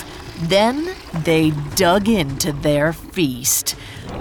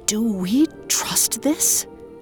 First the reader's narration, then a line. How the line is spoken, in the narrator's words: Abderus whispered